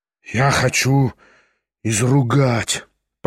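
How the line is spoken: Muttering. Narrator (Russian): пробормотал Кириллов

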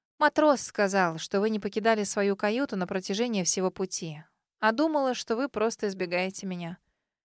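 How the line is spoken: Murmured to herself. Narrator (Russian): Ответила скорее себе, чем соседу по кровати

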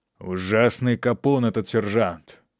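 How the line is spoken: Angry grumbling. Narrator (Russian): ворчал майор, в сердцах

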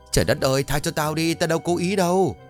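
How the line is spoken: Yelping scream. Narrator (Vietnamese): Bột hét lên oai oái

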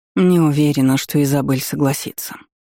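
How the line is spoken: Sighing. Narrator (Russian): вздохнула Гретта

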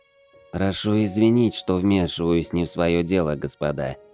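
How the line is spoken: Soft, gentle. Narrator (Russian): мягко сказала Итаменко

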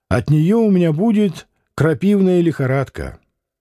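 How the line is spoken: Cheerful refusal. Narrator (Russian): он весело отказался

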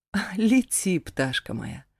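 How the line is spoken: Laughing mother. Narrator (Russian): Рассмеялась мама

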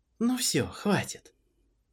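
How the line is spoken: Gentle, smiling voice. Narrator (Russian): Она с улыбкой ласково добавила

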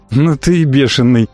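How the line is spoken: Nervous laugh. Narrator (Russian): нервно хохотнул Бад

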